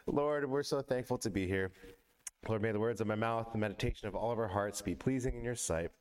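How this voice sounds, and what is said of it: Shaky voice. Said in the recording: “you might be able to tell that my voice is a little shaky this morning”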